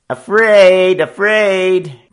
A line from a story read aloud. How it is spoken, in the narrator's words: the young roughs jeered and taunted